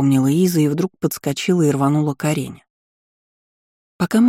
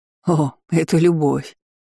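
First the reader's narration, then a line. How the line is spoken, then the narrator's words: Short laugh. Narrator (Russian): хохотнул Карх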